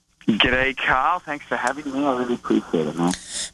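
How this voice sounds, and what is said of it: Australian accent. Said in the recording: “I love the Australian accent.”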